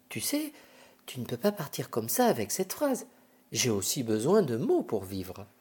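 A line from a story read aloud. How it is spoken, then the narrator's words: Murmuring. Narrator (French): murmure-t-il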